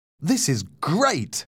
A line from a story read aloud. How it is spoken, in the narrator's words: exclaimed